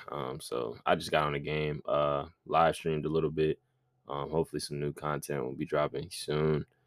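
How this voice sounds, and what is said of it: Tired, drained-sounding voice. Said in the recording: “You can kind of hear it in my voice. I'm just like, bro, I'm so drained already.”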